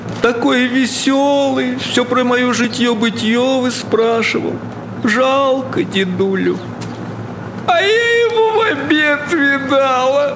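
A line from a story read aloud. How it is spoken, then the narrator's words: Sobbing lament. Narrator (Russian): причитая, всхлипывала повалих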